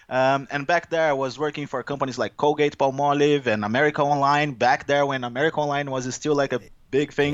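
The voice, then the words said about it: Brazilian-accented English. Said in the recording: “I am originally from Brazil, as you can guess based on my accent here”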